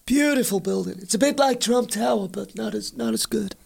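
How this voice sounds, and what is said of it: Poor Donald Trump impression. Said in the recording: “worst Donald Trump impression”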